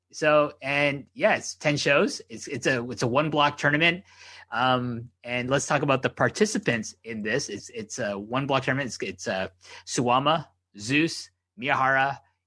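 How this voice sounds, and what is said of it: Strained, fading hoarse voice. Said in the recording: “my voice is kind of going right now, so I'm just trying to keep it up here. I got a bit of a frog in my throat here.”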